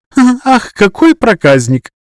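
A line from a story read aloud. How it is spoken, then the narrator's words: Giggling. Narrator (Russian): хихикнула Шикла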